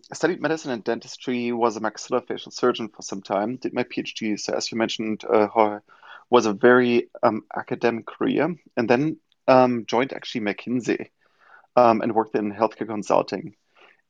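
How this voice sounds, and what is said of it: German accent in English. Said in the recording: “as most of you can hear probably from my accent, not from New York originally, but from Germany”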